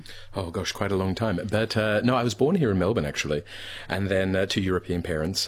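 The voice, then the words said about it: Australian accent. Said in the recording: “As you can hear, I sound Australian.”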